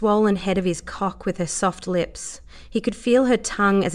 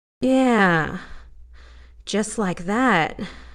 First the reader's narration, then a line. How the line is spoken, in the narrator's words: Dave groaned